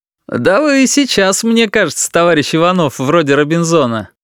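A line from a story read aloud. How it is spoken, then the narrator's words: Laughing. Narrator (Russian): смеясь, проговорил Володя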